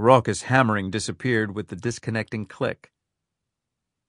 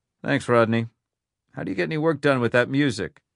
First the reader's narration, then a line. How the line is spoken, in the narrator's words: The man chuckled